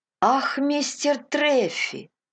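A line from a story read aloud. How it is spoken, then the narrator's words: Exclamation. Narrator (Russian): воскликнул Кристи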